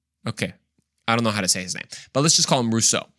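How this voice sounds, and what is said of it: Usual voice. Nothing is said of it.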